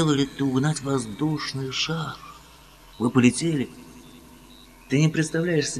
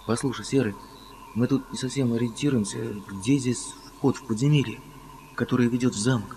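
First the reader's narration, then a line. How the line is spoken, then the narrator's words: Plain question. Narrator (Russian): спросил Том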